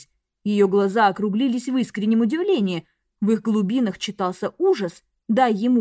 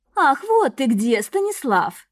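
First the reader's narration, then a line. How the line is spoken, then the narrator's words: Tender purr. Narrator (Russian): нежно промурлыкала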